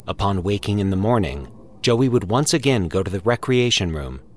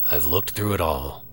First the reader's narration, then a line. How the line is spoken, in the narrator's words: Franklin muttered